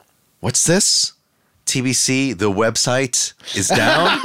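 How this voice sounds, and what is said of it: Usual voice. Nothing is said of it.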